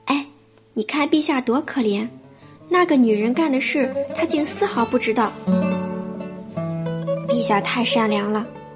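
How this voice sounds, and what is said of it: Quiet, hushed voice. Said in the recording (Chinese): “小声的说起话来”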